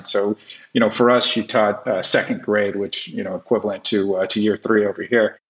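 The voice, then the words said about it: American accent. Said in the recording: “you can hear the American accent.”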